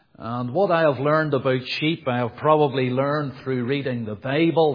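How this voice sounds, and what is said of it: Belfast accent. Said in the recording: “you can probably tell from my accent anyway, I'm from Belfast”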